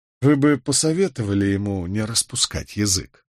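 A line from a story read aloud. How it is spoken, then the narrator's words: Dry remark. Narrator (Russian): сухо проронил Воувелл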